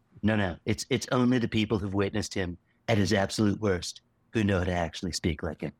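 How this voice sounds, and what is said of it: Breathy imitation of a politician. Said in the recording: “good Donald Trump impression ... Maybe it's a little too breathy ... It's a little Seth Meyers-y”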